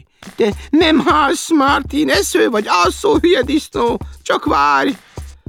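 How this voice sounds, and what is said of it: Annoyed grumbling voice. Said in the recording (Hungarian): “bosszusan dörmögi”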